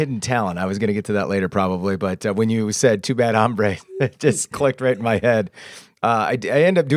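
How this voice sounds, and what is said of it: Usual voice. Nothing is said of it.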